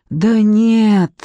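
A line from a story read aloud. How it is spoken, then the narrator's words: Hoarse. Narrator (Russian): хрипло сказала Ляля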